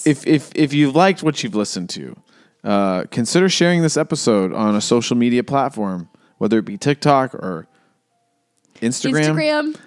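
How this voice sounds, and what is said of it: Serious, formal announcer-style voice. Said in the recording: “That got serious voice.”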